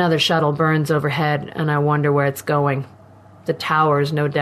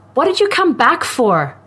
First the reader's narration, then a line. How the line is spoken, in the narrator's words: Her voice is suddenly shrill